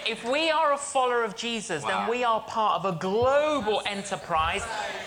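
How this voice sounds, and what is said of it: Australian accent. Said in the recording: “Maybe that's that Australian accent.”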